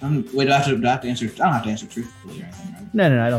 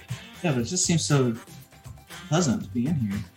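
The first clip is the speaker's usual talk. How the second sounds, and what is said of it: Speaks in a put-on accent. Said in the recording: “I'm going to drop the accent.”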